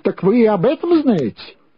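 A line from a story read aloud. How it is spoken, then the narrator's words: Exclaimed. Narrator (Russian): воскликнул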